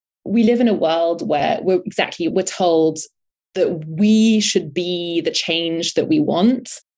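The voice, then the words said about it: Non-American accent. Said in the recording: “in America, we live, which is where I've been living for the last 12 years, in spite of my accent.”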